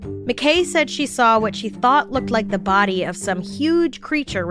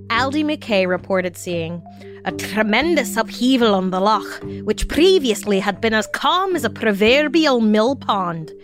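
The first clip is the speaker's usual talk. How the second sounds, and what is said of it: Put-on Scottish accent. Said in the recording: “my Scottish accent”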